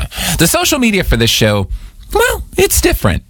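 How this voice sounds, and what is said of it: Voice jumps to a high pitch. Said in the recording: “my voice went so high when I said, well”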